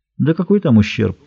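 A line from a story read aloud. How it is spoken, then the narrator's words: Glum mumble. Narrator (Russian): пробормотал Смолин уныло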